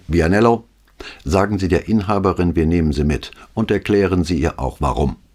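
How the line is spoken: Loud command. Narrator (German): befahl mit lauter Stimme

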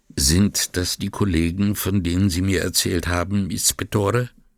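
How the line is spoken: Quiet question. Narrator (German): fragte leise

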